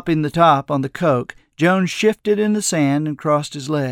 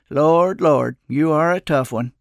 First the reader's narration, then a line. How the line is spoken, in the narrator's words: he sighed and said